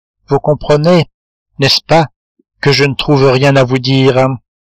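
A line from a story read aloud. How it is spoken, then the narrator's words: Trembling voice. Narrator (French): dit Marie d'une voix tremblante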